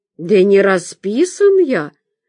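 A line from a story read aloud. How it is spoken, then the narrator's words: Confused guard. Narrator (Russian): растерянно сообщил охранник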